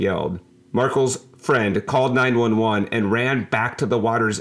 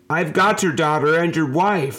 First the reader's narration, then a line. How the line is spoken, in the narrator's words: Nickum yelled back